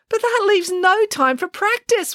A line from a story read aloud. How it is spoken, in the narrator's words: wailed Samantha